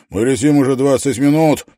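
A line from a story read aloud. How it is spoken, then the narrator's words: Shouting over engine roar. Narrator (Russian): прокричал он сквозь рев двигателя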